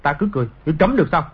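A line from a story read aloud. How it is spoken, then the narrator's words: Angry. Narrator (Vietnamese): Trịnh Khắc Sản tức giận nói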